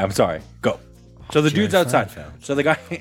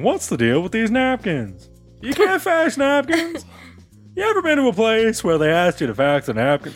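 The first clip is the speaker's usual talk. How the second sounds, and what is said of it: Imitates another person's voice. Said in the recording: “my Seinfeld impression isn't very good”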